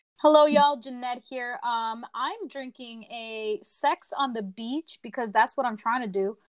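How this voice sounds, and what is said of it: Southern-sounding accent. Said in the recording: “Why do you sound Southern? ... her accent changes. Like sometimes she gets a little hood.”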